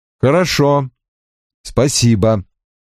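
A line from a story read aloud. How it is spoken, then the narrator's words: Cold. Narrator (Russian): холодно ответил я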